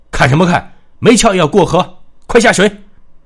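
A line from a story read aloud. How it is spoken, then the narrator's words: Roaring command. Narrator (Chinese): 他对兵丁们吼道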